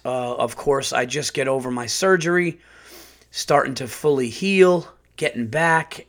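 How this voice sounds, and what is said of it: Sick, rough-sounding voice. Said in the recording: “Excuse my voice. ... now I'm getting sick.”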